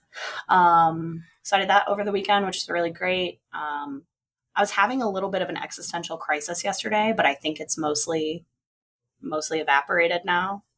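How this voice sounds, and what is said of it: Strained, partly lost voice. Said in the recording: “my voice is a little messed up, it is because I went too hard singing You Oughta Know by Alanis Morissette at karaoke on Friday night, and then lost my voice.”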